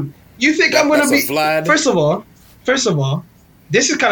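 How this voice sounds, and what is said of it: Usual voice. Nothing is said of it.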